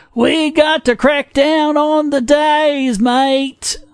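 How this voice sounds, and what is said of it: Pat Robertson with mock Australian accent. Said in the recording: “do Pat Robertson with an Australian accent.”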